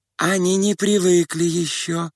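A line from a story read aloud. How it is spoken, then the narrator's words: Timid, sugary voice. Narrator (Russian): произнесла робким и умильным голосом одна из приживалок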